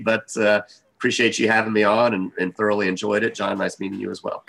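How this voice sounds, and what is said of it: Slightly rough, unsteady voice. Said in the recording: “my voice is a little bit sketchy”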